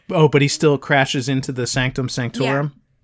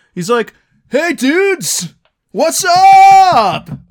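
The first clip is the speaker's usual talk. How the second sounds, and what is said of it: California beach dude accent. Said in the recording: “wrong accent for New York City ... that's like California beach dude”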